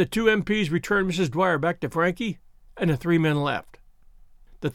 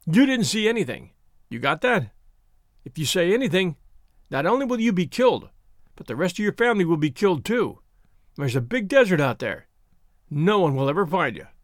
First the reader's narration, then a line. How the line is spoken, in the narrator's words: In a thick New York accent, he said